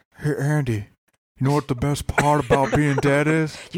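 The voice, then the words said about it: Imitates another person's voice. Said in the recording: “do that voice ... Is it racist to do that voice? ... Shaq has kind of a... He's distinctive ... That's the ghost of Shaq.”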